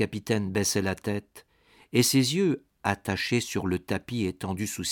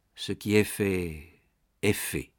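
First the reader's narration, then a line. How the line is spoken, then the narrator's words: Said with stifled sigh. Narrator (French): dit-il enfin avec un soupir étouffé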